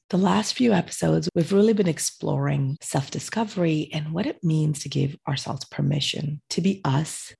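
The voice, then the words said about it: Voice slightly off from illness. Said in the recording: “recovering from a viral infection ... my voice is still a little off”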